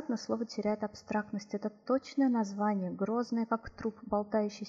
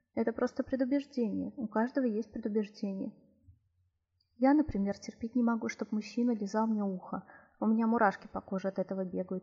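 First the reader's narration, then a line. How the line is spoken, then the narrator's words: Laughing. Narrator (Russian): рассмеялась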